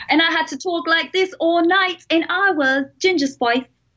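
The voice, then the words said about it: Attempted British accent, New York-tinged. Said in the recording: “You got a New York accent mixed up in there somehow. That does not sound like the UK.”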